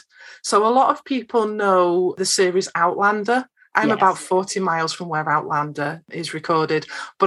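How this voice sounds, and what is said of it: Lancashire English accent. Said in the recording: “a little bit of a different accent ... I don't have a Scottish accent. I'm from Lancashire in Northwest England”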